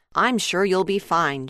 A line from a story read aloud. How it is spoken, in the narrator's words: Joe said